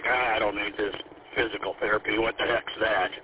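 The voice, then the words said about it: Imitates another person's voice. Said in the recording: “That was my dad voice”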